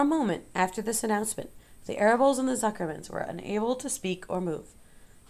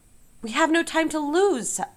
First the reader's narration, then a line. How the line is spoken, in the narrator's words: shouted Mr